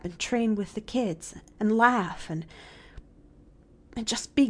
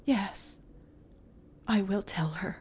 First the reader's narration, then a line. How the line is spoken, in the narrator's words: promised Miss Polly, a little faintly